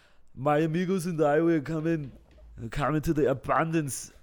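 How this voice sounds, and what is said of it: Put-on Austrian accent. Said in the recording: “an Austrian accent ... Just not as masculine”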